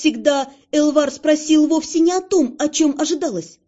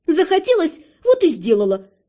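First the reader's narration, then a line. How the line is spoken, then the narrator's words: Snapping back. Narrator (Russian): огрызнулась я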